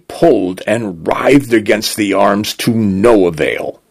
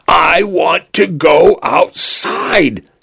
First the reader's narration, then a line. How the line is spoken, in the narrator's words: he screamed over and over again until his voice broke